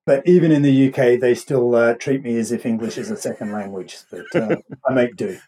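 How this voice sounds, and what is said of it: Mild Australian accent. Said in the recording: “your accent's a little different than mine ... I'm actually an Aussie, born and bred ... it's a pretty mild Aussie accent”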